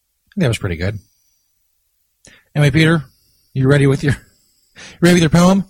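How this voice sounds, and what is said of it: Usual voice. Nothing is said of it.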